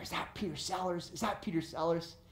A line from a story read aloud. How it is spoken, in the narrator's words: they start to whisper